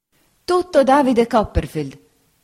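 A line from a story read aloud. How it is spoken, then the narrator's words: Lady exclaiming. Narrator (Italian): esclamò la signora Bezze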